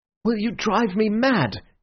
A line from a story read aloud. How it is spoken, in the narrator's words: he cried